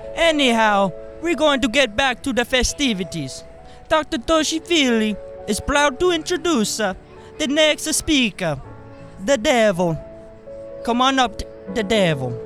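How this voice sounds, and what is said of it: Altered, cold-sounding character voice. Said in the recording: “my voice sounds a little different now. I come down with a little cold.”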